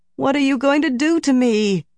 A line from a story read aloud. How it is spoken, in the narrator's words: Nynaeve moaned